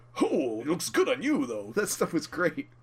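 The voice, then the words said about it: Imitates another person's voice. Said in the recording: “your impression ... I'm slipping into some sort of combination of Rocky and Rodney Dangerfield”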